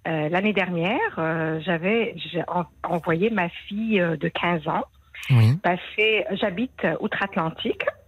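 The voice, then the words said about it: Slight foreign accent. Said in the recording (French): “Avec un petit accent”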